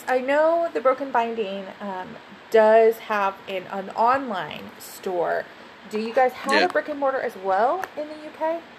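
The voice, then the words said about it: Slightly tired voice. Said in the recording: “my voice is a little tired”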